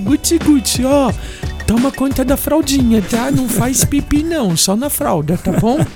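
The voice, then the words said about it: Doting mother voice. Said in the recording (Portuguese): “Hoje eu tô imitando as mães aqui.”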